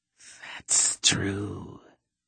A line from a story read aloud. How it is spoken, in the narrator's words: the serpent hissed